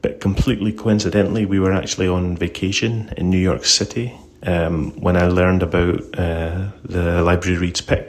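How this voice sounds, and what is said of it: Scottish accent. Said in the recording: “As you can probably tell by my accent, I'm not from the US. I live and work in Scotland.”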